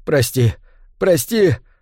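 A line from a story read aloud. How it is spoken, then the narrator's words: Sobbing. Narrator (Russian): рыдал он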